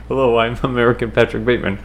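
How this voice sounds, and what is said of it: American-accented impression of a film character. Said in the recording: “how good my American Patrick Bateman impression is ... Spot on.”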